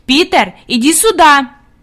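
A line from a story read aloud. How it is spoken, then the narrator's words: Commanding shout. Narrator (Russian): Хади крикнула повелительным тоном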